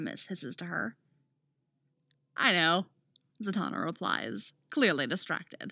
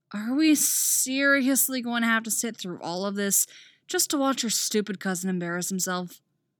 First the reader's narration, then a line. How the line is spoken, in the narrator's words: Artemis groans aloud